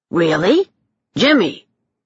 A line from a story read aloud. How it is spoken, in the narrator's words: Dane barked again